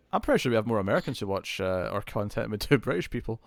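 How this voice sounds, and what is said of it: Non-American accent. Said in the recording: “my accent's all exotic for for Americans”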